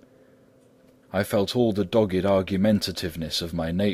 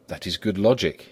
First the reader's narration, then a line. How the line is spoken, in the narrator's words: he said